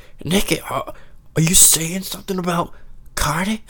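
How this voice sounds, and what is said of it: Poor Zane Lowe impression. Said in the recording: “his Australian or British, whatever accent ... That was a horrible impression.”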